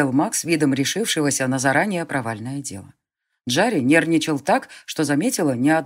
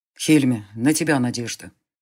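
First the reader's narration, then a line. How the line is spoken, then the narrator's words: Deceptively calm mage. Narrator (Russian): обманчиво спокойно сказал маг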